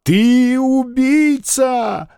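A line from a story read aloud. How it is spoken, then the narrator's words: Sobbing outcry. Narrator (Russian): рыдая вскричал Званцев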